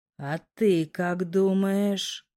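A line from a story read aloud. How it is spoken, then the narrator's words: Quiet drawling question. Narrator (Russian): Тихо, слегка растягивая слова, спросил это недоразумение, называющее себя мужчиной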